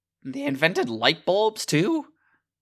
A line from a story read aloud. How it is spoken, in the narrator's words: Fitch chirps